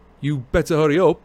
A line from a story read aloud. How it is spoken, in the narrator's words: Ron called loudly after her